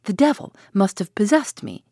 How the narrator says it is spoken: he exclaimed

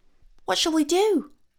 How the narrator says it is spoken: asked Whisk anxiously, all the mirth and mischief banished from his wee face by this great calamity

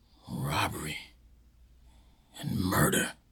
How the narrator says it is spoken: he whispered slowly to himself

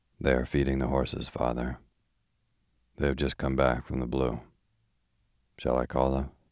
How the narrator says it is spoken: He sighed

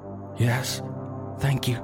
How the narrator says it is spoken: the mother said faintly

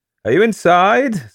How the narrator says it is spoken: said Basil laughingly

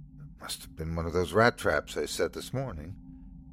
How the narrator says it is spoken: whispered

